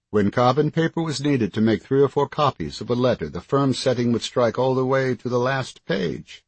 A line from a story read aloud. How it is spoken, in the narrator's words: he chuckled